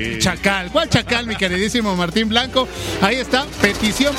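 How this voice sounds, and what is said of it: Usual voice. Nothing is said of it.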